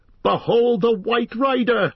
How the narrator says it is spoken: cried Aragorn

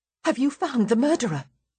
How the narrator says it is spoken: blurt out anxiously

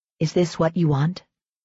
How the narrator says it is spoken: It came to her as a whisper, a soft ribbon

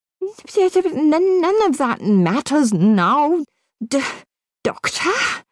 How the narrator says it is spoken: spluttered the professor urgently

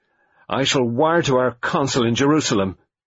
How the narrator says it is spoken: Lennox Boynton said angrily

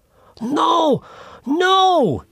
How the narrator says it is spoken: suddenly cried out

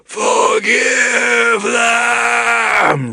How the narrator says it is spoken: roared the giant's last breath

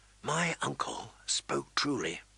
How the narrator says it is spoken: he whispered to Ghost

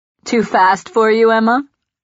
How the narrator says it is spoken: He asks, laughing

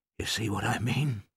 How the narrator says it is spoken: whispered

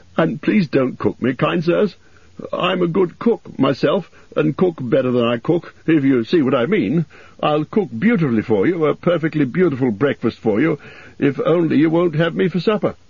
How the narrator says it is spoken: said Bilbo, gasping

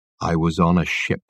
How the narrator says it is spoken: Michael Wenton Weeks gazed into his eyes with terrible intensity, and said in a low voice

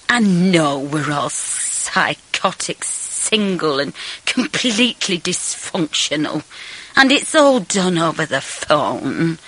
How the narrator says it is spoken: Tom slurred sentimentally

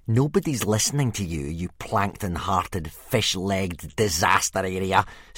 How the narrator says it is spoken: sneered Snotlout

